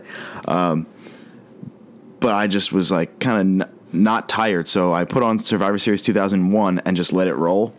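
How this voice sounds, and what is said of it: Coarse, hoarse voice. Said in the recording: “your voice is a little coarse. It's coarse today.”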